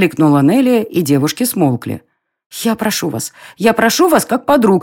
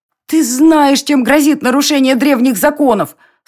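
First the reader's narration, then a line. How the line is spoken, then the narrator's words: Moaning. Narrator (Russian): стонала Милена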